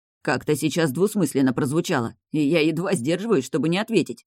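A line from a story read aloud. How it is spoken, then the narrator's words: Grumbled. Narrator (Russian): пробурчал Энджин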